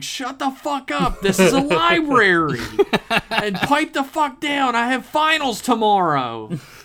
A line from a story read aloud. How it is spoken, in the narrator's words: A bunch of normal human voices, disgruntled and over-caffeinated students, piped up here and there on the floor, yelling